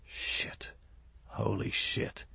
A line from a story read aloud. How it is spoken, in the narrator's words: muttered